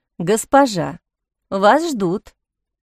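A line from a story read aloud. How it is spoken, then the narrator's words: Stern reminder. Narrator (Russian): Самира строго напомнила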